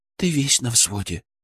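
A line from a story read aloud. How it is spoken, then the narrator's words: Whisper. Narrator (Russian): прошептала она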